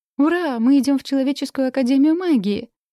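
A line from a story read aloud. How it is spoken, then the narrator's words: Joyful squeal. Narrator (Russian): радостно взвизгнула Надя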